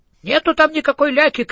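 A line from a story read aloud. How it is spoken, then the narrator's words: Shout with childish accent. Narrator (Russian): крикнул человек с детским акцентом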